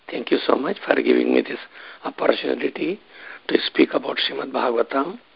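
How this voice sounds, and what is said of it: Muffled voice from a cold. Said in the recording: “My voice may be a little bit muffled because of having some cold and throat problem”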